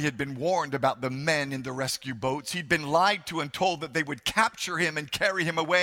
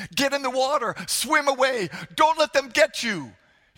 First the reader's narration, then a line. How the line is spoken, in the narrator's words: His uncle cried